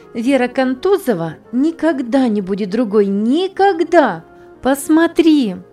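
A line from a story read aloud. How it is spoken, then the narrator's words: Emotional exclamation. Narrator (Russian): Воскликнула она с чувством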